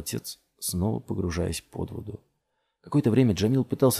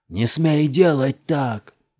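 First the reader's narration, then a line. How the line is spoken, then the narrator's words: Angry shout. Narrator (Russian): закричал на него Джамил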